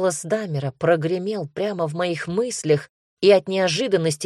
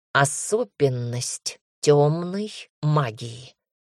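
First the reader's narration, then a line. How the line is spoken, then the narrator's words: Through gritted teeth. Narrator (Russian): процедила сквозь зубы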